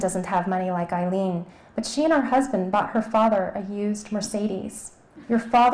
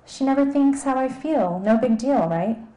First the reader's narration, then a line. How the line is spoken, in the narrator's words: Elizabeth gave an exasperated sigh